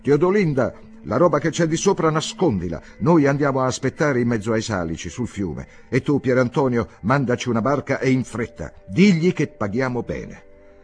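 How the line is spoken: Shouted. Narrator (Italian): gridò

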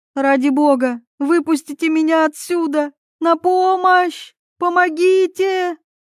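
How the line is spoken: Screaming hoarse, coughing, sobbing. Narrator (Russian): Она вопила так, что сорвала голос, закашлялась и замолчала, судорожно всхлипывая

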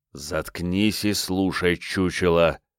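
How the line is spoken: Hissed close to ear. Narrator (Russian): прошипели где-то совсем рядом с ухом

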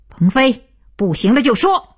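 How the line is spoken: Loud while spinning. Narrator (Chinese): 徐东福飞转着大声道

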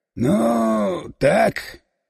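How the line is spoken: Mumbling. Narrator (Russian): помямлил

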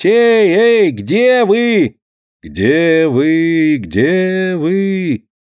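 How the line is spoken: Loud calling shout. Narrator (Russian): она попробовала громко и призывно крикнуть

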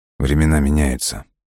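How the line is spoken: Cool-toned reply. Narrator (Russian): прохладным тоном ответил Лесков

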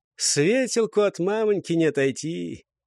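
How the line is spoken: Laughing. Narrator (Russian): Нарочно подпустил левобережное слово, посмеялся

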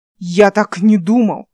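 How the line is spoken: Irritated yell. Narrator (Russian): раздраженно заорал Ас

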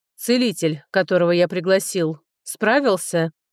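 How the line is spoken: Icy question. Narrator (Russian): ледяным тоном спросил он

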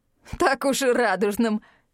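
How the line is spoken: Chuckling young man. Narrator (Russian): хохотнул парень

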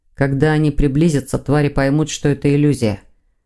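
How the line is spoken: Gloomy reply. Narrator (Russian): мрачно отозвался Сазонов

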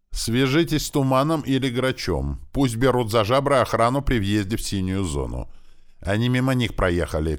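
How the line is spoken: Parting shout. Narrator (Russian): крикнул я напоследок остающимся тут ребятам

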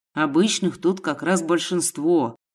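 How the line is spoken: Plain. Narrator (Russian): сказал Гена

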